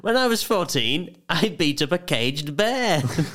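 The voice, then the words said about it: Mixed David Mitchell–Lee Mack impression. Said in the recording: “I don't know whose accent that was. Sort of a combination of both.”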